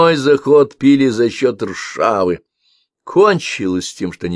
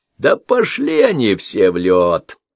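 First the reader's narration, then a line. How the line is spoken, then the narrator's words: Giggling. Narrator (Russian): Лардис хихикнул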